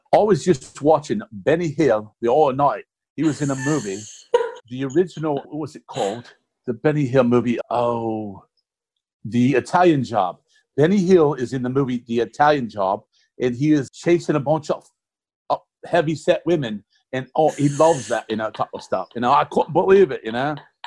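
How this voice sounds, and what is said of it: Put-on English accent. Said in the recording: “you have to do the English accent”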